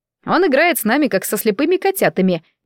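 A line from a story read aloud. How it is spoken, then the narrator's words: Displeased grumble. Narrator (Russian): недовольно проворчал маэстро Фермин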